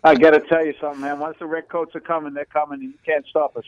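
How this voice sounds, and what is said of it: Boston accent. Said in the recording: “a crazy Englishman like you with a Boston accent”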